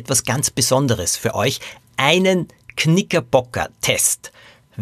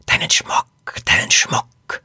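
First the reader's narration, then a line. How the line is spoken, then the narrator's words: Hissing voice. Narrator (German): eine Stimme zischen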